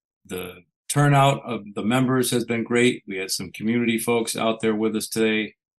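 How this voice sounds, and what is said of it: Hoarse, partly lost voice. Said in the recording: “my voice is somewhat gone.”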